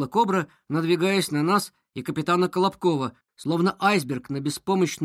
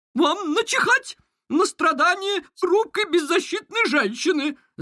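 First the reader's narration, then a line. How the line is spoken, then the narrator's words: Shriek. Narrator (Russian): завизжала Кобра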